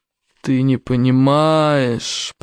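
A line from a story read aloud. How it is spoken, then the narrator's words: Moaning. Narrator (Russian): простонал Ярогнев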